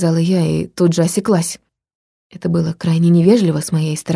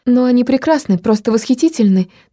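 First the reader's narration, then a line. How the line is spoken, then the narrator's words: Hurried. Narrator (Russian): торопливо добавила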